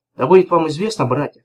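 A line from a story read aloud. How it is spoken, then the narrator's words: Plain. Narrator (Russian): сказал Вамба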